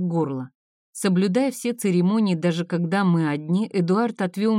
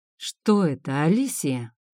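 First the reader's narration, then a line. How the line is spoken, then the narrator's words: Deceptively calm. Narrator (Russian): Голос Эдуарда звучал обманчиво спокойно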